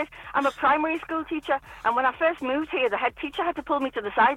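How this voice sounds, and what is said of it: Northern English accent, very fast talking. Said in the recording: “you still have not lost your original wonderful accent ... it's your speed more than your accent ... You talk really”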